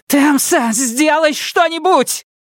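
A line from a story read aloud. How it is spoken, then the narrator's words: Terrified shriek. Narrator (Russian): взвизгнула Сизин, раскрыв рот от ужаса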